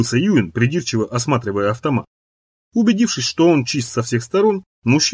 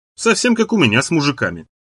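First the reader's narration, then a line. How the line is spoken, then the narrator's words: Dry, from across room. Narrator (Russian): сухо произнесла Сара из своего угла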